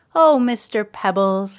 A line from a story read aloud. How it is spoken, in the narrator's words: said with a sigh